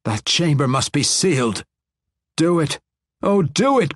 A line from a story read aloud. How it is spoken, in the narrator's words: cried another voice